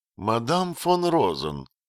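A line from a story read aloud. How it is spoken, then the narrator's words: Calm, restrained, rising anger. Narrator (Russian): сказала Серафина самым спокойным и сдержанным тоном, но с заметным нарастанием гнева в голосе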